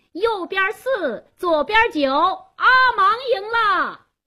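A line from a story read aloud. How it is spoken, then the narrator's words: Loud announcement. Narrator (Chinese): 加斯东做公证人，他高声喊道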